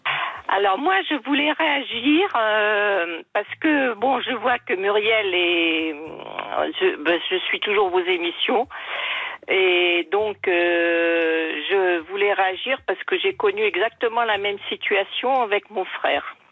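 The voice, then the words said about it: Slight sing-song southwestern French accent. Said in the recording (French): “vous avez un petit accent chantant ... vous avez bien pris l'accent ... c'est l'accent de la mer”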